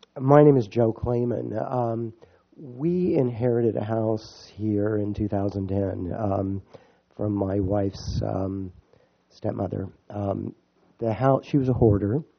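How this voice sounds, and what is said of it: Weak, hoarse sick voice. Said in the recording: “sorry for my voice being gone. I've been sick the last week”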